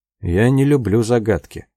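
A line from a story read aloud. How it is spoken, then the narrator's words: Grumbling. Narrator (Russian): проворчал он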